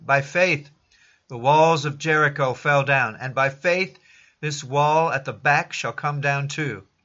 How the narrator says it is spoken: while preaching there, I exclaimed

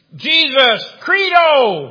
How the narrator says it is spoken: he shouts out

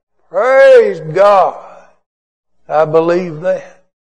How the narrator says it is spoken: the old preacher could not contain his jubilation, and he just bellowed out

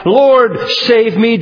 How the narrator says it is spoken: Peter cried

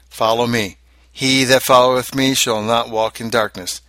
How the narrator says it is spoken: Christ has cried

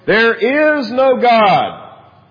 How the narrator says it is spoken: called out in a rather loud voice

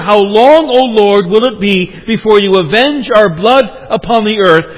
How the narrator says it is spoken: the martyrs under the altar ... when they cried out

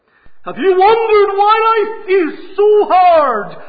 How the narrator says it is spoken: He cried

